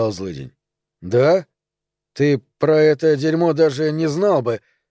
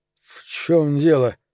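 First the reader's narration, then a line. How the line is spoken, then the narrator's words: Sleepy slurred mumble. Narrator (Russian): заплетающимся со сна языком пробормотал Билли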